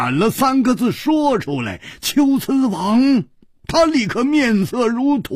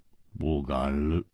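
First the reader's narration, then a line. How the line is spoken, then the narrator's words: Sighing. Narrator (Chinese): 胡铁花和姬冰燕不约而同地叹了一口气说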